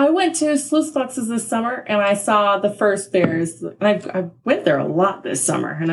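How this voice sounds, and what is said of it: Usual voice. Nothing is said of it.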